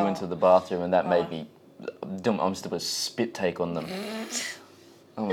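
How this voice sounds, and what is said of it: Usual voice. Nothing is said of it.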